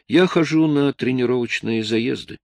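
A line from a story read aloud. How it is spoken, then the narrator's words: Calm. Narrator (Russian): спокойно сказал австралиец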